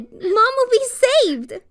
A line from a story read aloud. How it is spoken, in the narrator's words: I cried even louder when I heard they were coming to help her